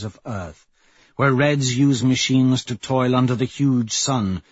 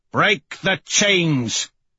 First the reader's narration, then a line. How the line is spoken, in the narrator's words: roar